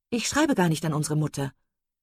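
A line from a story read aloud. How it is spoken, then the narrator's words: Hasty, evasive reply. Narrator (German): entgegnete Marian hastig und als wolle sie allen weiteren Fragen aus dem Weg gehen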